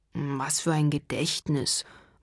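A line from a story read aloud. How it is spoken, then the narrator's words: Murmuring. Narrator (German): murmelt Drafi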